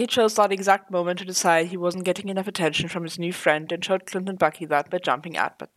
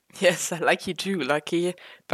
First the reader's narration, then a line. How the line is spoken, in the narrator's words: Bucky chuckled